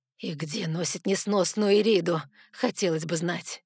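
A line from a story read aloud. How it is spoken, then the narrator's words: Goddess growling. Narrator (Russian): Нахмурив брови, рыкнула богиня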